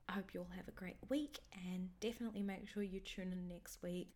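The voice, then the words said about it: Sick, croaky voice. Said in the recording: “my voice is a little bit sick and croaky today”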